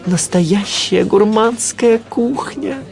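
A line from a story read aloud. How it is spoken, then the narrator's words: Breathless exhale. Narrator (Russian): выдохнул я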